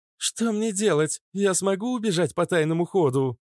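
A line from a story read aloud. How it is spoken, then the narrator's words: Shriek. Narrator (Russian): взвизгнула Иштар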